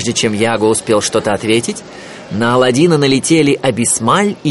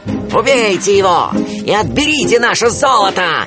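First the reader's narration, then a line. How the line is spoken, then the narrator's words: Shouting. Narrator (Russian): закричал разбойникам главарь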